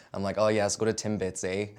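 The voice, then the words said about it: Put-on North American accent. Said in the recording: “can you do a North American accent? ... I start talking like this.”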